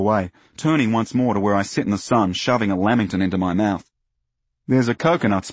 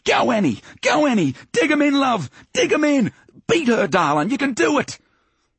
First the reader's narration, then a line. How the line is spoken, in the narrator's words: yelled